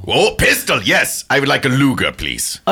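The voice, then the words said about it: Exaggerated German accent. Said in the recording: “You got a funny accent. ... I was born in Austria, but lived most of my life in Germany.”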